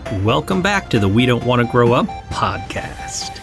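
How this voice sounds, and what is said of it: Announcer-style radio voice. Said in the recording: “That is some serious radio voice”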